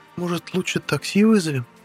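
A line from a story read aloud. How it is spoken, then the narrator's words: Hesitant suggestion. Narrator (Russian): Неуверенно предложила ведьма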